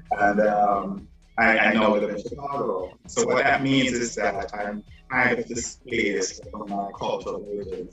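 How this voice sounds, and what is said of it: Jamaican accent. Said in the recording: “I'm from Jamaica originally, if you guys can tell that accent.”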